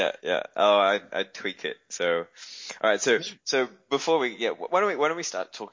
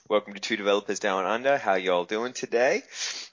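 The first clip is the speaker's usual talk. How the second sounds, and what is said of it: Mock American accent, still Australian-sounding. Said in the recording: “it's not really working that well because it still comes with an Aussie accent”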